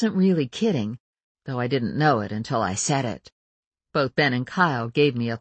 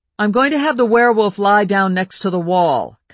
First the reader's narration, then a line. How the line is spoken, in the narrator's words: Kyle said loudly